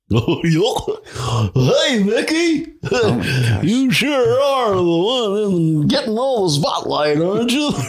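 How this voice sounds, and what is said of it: Good Goofy impression. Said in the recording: “your best Goofy impression... That was pretty good.”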